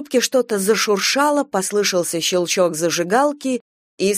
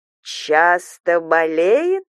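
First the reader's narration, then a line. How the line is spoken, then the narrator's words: Insinuating hiss. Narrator (Russian): вкрадчиво прошипела свекровь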